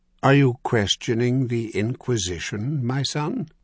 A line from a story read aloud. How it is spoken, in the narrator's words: Father Gaispert van Dijk asked in a gentle, silky tone